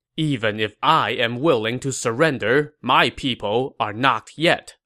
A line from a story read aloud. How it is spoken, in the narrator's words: Meng Huo replied